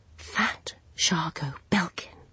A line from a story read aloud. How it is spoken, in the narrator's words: he whispered